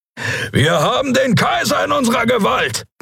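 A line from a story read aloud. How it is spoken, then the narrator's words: Roared. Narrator (German): brüllte Keru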